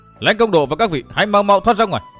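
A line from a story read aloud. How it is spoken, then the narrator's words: Roaring like a tiger. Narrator (Vietnamese): Gầm lên một tiếng như hổ, Hòa Hạo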